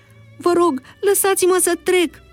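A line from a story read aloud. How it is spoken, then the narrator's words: Pleading. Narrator (Romanian): se ruga el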